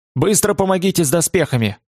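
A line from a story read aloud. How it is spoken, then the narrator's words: Barked shout. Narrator (Russian): гаркнул Томас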